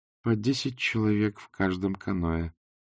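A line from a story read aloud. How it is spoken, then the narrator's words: Gloomy report. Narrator (Russian): мрачно сообщила Канина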